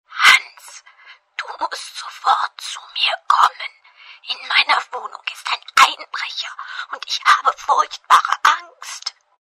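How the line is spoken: Trembling frightened whisper. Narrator (German): flüsterte mit zittriger Stimme

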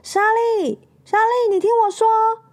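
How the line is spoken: Loud shout. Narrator (Chinese): 麦昆在他身喊身后大喊

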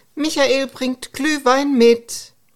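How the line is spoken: Calling out. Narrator (German): Hilde werkelte in der Küche und rief

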